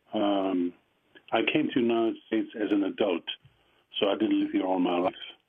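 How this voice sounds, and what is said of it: Strong German accent. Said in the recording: “with my strong German accent”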